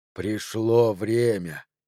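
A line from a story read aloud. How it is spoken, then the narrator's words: Purred. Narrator (Russian): мурлыкнула она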